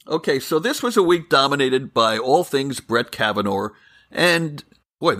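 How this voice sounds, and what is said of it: New York accent. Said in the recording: “that was my New York accent.”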